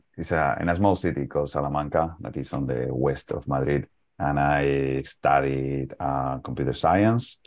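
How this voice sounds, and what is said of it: Spanish accent. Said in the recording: “I am from Spain. My accent probably already told you that.”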